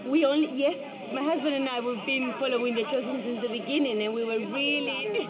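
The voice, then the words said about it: Spanish accent in English. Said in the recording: “I love your accent. Where are you from? ... From Spain.”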